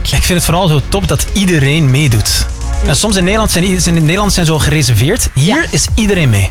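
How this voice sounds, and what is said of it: Dutch accent with Antwerp influence. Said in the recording (Dutch): “je hoort het ook aan mijn accent, hè? ... is het al meer Antwerps? De Nederlanders wel, ja.”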